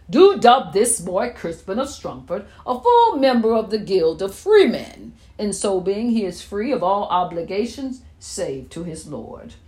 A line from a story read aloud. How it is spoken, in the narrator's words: roared, loud enough for all the world to hear